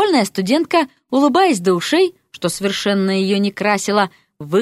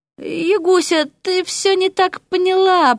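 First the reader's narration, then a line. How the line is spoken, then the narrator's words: Babbling from below. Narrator (Russian): пролепетал с нижнего пролета князь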